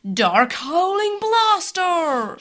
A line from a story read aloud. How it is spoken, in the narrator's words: Shadow yelled